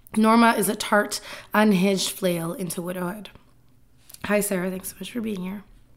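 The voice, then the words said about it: Strained, failing voice. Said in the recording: “Apparently, I'm losing my voice.”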